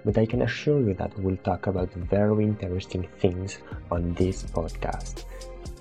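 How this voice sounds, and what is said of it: Strong French accent in English. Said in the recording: “I'm French, that's where my horrible accent comes from”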